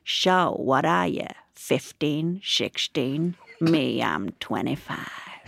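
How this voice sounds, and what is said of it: Imitates a local man's accent. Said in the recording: “he said in this accent, even though he was from Matlock”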